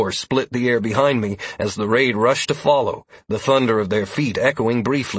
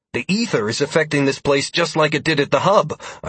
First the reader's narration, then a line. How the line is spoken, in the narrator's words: I exclaimed mentally